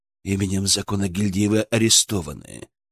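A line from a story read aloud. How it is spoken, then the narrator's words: Calm icy voice. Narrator (Russian): спокойным ледяным голосом произнес незнакомец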